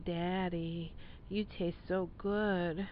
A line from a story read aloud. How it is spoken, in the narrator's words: Maria purred into the phone